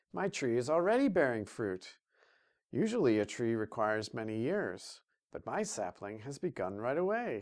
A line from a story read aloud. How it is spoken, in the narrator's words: chuckled